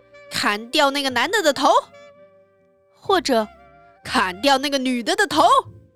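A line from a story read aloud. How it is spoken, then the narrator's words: Angry shouting. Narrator (Chinese): 她跺脚吼道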